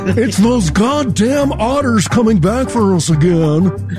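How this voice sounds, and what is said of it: Panicked rich-person character voice. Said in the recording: “my impression of a rich person running from otters”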